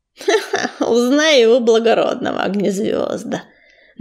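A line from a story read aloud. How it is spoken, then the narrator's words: Mocking, through teeth. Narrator (Russian): насмешливо процедил Чернозвезд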